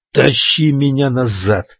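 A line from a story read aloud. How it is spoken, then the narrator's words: Growled. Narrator (Russian): прорычал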